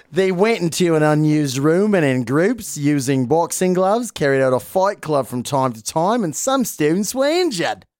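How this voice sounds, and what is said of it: Put-on Australian accent. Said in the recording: “I guess I have to try and do my Australian. ... All your accents have been banging so far.”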